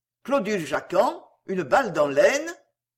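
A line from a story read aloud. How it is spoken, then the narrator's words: Sneering. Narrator (French): Wilkie ricanait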